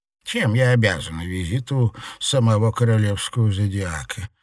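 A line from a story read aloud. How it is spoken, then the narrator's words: Dry inquiry. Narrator (Russian): сухо осведомилась мадам Анаит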